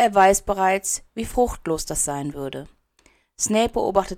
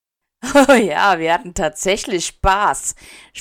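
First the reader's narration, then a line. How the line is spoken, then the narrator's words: Mocking. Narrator (German): spottet Cassius Warrington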